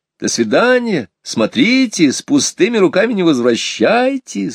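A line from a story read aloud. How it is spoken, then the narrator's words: Laughing call. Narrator (Russian): смеясь, кричала нам вдогонку мама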